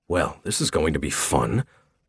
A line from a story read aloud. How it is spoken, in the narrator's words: I mumbled